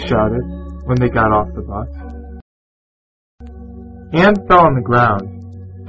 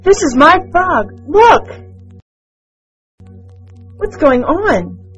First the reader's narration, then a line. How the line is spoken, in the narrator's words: asked the teacher